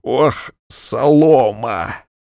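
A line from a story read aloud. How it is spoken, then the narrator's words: Forced out through laughter. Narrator (Russian): Утирая слезы сквозь смех, выдавил кабачик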